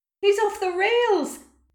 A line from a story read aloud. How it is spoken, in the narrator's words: Someone shouted